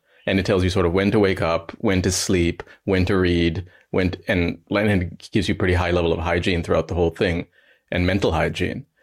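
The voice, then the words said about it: North American English accent. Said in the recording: “as you can tell from my voice, I was raised in the West. I grew up in America, in Ohio, and then I studied in Canada, in Montreal.”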